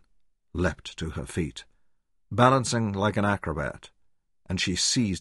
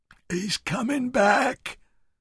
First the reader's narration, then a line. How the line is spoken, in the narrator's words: Ernie cried weakly